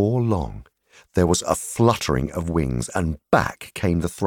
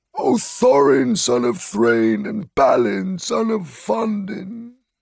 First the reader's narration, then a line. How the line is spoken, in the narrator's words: he croaked